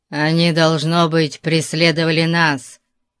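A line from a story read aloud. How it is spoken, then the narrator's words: Growl. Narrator (Russian): прорычал Зирас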